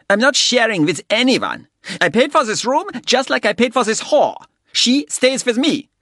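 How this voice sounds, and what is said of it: Harsh guttural German accent. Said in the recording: “spoke in a harsh, guttural accent, German”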